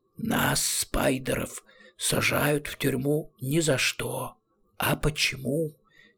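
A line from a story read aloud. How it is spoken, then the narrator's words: Quiet hiss. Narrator (Russian): тихо прошипел Рамкек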